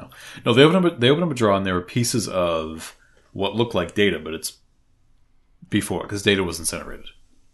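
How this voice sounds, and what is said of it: Boston accent. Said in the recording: “You're Boston ... you're all gonna have to deal with my Boston accent”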